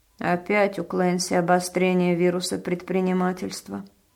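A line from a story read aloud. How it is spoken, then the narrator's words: Grumbling. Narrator (Russian): проворчала Маргарет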